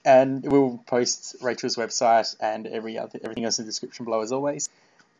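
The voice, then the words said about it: Australian accent. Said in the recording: “I love your accent. It's so pretty... I don't get the fascination with Australian accents”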